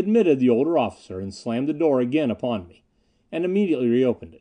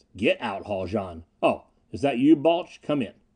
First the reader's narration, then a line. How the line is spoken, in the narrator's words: The captain rasped